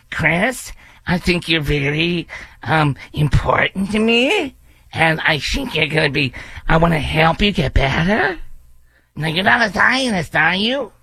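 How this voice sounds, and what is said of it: Nasal questioning-tone impression of candidate. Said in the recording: “you're always talking in question, and you talk to your nose ... I can't even impersonate her without laughing!”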